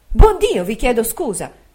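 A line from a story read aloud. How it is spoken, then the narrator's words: Motherly exclamation. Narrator (Italian): col naturale sentimento d'una madre, ho esclamato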